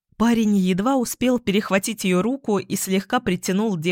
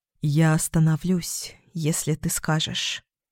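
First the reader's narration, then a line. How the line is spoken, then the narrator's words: Barely audible whisper. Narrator (Russian): чуть слышно прошептал он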